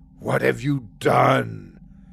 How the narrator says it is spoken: Acer said in a low growl

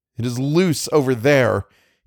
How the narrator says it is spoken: cried

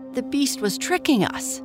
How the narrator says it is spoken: cried the merchant

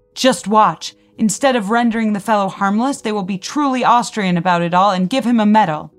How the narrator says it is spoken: spat

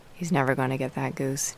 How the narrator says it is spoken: Dad said

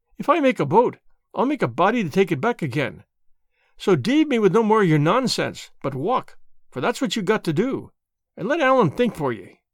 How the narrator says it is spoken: cried Alan

